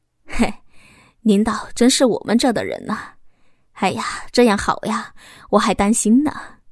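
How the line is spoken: Hearty laughter. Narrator (Chinese): 主任开怀大笑的说着

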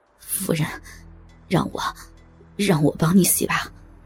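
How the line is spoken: Trembling, aroused voice. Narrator (Chinese): 胡不归的欲火一瞬间冲到了脑门他颤声说道

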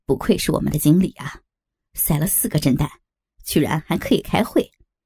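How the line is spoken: Laughing. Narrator (Chinese): 亚里主人笑着说

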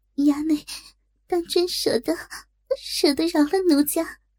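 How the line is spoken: Shy, tearful question. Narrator (Chinese): 不由一怔，止住哭，羞声问道

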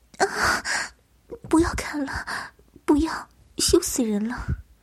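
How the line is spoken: Moaning, pleading. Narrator (Chinese): 他呻吟了一声，哀求道

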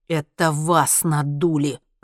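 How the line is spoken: Hissed. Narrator (Russian): прошипел Генри

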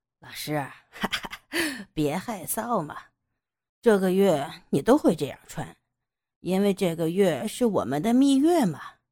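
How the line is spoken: Laughing. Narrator (Chinese): 杨野笑道

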